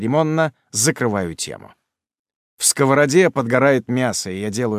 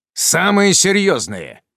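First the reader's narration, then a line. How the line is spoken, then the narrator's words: Irritated bark. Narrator (Russian): рявкаю раздраженно, выходя из равновесия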